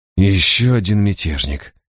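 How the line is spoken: Sigh. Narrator (Russian): вздохнул Барак

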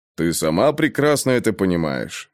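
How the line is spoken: Calm reply. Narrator (Russian): спокойно ответил Грей

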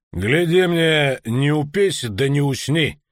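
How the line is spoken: Stern warning. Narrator (Russian): грозно предостерег Деде Варгас

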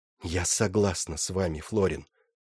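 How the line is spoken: Whispered. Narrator (Russian): прошептала она

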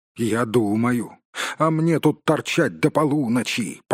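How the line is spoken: Grumbling. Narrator (Russian): проворчал Бумбур

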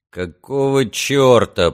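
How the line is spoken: Muttering. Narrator (Russian): пробурчал Каллаган

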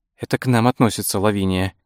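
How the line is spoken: Whisper. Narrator (Russian): прошептала Франсин

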